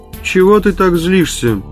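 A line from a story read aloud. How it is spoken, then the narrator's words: Flat colorless voice. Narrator (Russian): бесцветным голосом сказал Инскип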